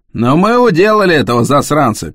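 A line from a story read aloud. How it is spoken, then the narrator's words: Shouted. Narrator (Russian): крикнул Джон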